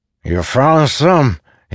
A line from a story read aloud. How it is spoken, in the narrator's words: said, each word slurred